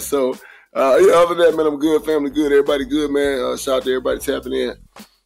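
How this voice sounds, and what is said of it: Raspy, gruff, partly lost voice. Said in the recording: “I lost my voice a little bit. ... Got a gruff-ass old man voice. ... It was a little raspy.”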